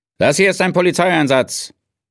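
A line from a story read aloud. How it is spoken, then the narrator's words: Policeman calling across street. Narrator (German): rief ihm der Polizist von der anderen Straßenseite aus zu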